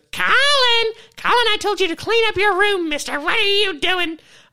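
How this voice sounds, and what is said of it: Mock impression of his mom. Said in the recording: “it's more of an impersonation... my favorite thing is to do my mom, because I intentionally don't sound anything like her”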